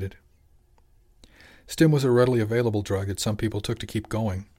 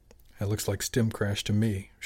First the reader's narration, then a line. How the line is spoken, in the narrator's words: said quietly